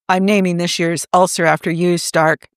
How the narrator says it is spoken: Coulson said blandly

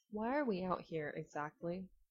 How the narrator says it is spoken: Rodney sighed and asked, much, much milder than he'd intended

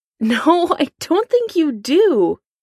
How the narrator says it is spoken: Foggy Nelson laughs, a hysterical edge to his voice

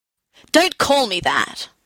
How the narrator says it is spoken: I snapped

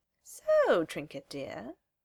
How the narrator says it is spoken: she says, her voice high and musical

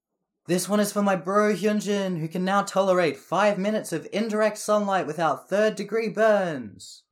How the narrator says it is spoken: Jisung yells

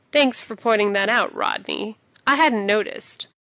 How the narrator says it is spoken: says dryly

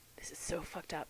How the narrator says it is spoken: says Sam, and he's breathless, and Dean knows that low rasp to his own voice, knows what he sounds like when he's hopelessly turned on

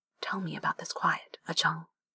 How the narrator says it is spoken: says softly

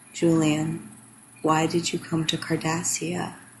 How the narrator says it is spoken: Garrick's lips brushed Julian's earlobe as he murmured

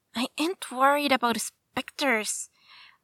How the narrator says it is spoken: Lyra scoffs

